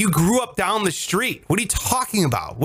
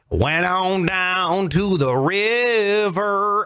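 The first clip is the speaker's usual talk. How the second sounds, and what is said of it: Mock country singer accent. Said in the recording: “dumb, fake accents for no reason. It's like this. ... Why do you have an accent when you sing?”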